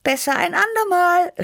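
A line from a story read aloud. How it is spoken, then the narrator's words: Called out. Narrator (German): rief ich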